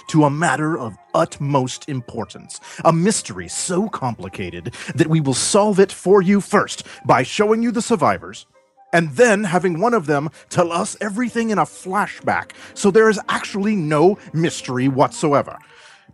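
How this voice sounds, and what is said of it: Poor Don Draper impression, radio-announcer voice. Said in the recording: “worst Don Draper impression ... One of these people who always speak as though they're on the radio.”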